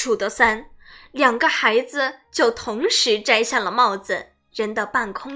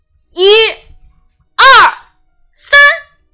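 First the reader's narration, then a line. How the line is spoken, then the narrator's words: Loud counting. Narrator (Chinese): 匹诺曹开始大声数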